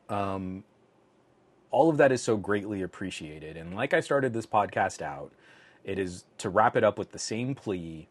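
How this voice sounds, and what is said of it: Strained, failing voice. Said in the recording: “My voice is really starting to go on me here.”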